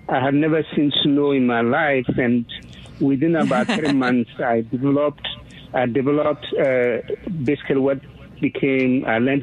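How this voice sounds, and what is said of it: Foreign accent in English. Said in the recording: “I'm from another country, as you probably can tell from my accent”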